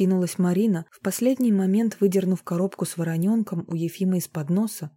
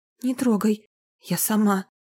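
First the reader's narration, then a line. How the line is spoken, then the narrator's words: Hoarse exhale. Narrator (Russian): Она сипло выдохнула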